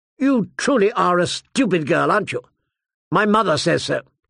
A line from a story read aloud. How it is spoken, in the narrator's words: he said sharply